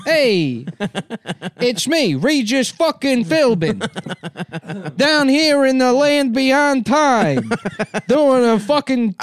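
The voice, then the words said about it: Imitates another person's voice, Bronx accent. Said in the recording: “He's got a Bronx accent.”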